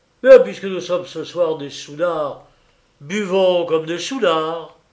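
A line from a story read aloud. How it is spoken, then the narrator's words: Exclaiming. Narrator (French): il s'écria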